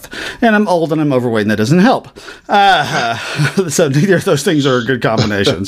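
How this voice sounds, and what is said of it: Slightly out of breath. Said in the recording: “a little out of breath ... I've been running up and down the stairs, so I'm a little bit out of breath.”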